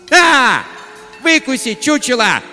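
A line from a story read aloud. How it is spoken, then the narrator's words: Yell. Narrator (Russian): завопила она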